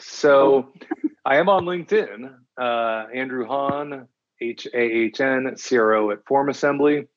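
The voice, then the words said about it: Deep announcer-style radio voice. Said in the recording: “Let me turn on my radio voice.”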